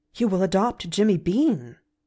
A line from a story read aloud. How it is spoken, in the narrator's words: she gasped